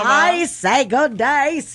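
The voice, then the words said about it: Katharine Hepburn impression, mixed accents. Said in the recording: “This one just Katharine Hepburned it up a little bit. ... You went a couple different places there. ... four at the same time. ... Four accents, no waiting. All in the same vowel.”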